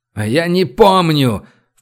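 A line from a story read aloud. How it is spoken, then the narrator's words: Full-voiced shout. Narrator (Russian): в полный голос крикнул Олег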